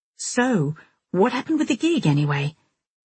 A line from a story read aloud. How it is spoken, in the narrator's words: I kept my tone carefully light